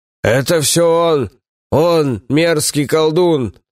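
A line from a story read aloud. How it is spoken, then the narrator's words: Accusing shout. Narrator (Russian): закричал один из матросов, рыжий Вахас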